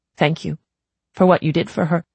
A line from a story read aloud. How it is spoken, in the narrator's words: she said, her voice breaking